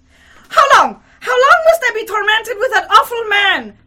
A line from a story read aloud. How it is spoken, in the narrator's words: she cried in frenzy